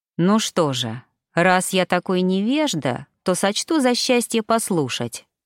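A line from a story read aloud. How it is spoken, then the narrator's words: Plain. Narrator (Russian): ответил он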